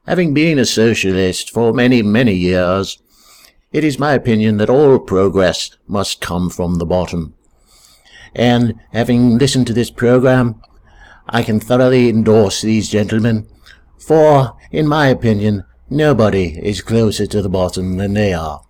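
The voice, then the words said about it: Poor Tony Benn impersonation. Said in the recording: “this is a very poor impersonation of Tony Benn”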